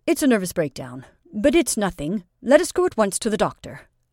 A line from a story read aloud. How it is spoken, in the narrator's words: The medical student, too, almost shed tears, but considering that doctors ought to be cool and composed in every emergency, said coldly